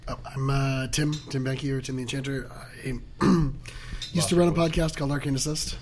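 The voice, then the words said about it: Hoarse, strained failing voice. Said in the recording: “I'm losing my voice. ... on Friday, I had to talk to a bunch of people, and it's had this effect on me. So I should be pretty distinctive on this channel.”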